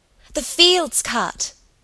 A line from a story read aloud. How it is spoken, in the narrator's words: Helen cried excitedly